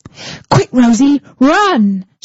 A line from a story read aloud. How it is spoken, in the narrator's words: shouted Harry